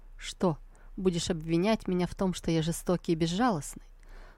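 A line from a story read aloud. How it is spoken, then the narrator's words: Quiet, surprised. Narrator (Russian): Сусу удивленно тихо проговорила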